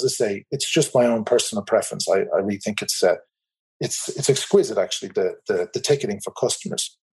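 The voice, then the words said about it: Irish accent. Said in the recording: “As you can probably tell from my accent, I'm in the Republic of Ireland”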